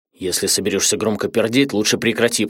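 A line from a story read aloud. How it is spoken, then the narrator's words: Nasal whisper, nose pinched. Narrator (Russian): прошептал Адама, зажимая нос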